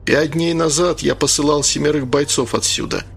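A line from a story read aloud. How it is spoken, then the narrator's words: Plain. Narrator (Russian): сказал он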